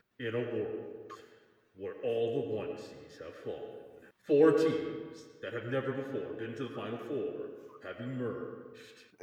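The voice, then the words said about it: Very deep dramatic voice. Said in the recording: “do a voice impersonation? Like a really deep voice?”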